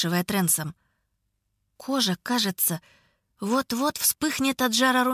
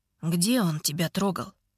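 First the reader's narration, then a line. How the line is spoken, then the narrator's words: Hoarse question. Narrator (Russian): спрашивает Мелли с хриплым голосом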